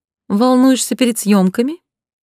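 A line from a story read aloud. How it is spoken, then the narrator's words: Sarcastic polite question. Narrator (Russian): поинтересовалась язвительно светским тоном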